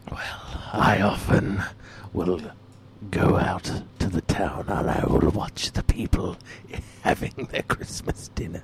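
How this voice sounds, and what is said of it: Very hoarse, sinister character voice. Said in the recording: “Is that Satan? ... you sound very hoarse.”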